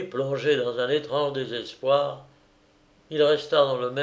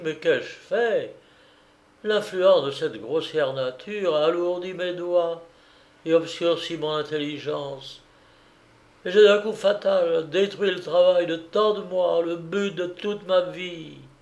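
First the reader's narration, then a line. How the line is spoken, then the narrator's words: Exclaimed. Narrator (French): s'écria-t-il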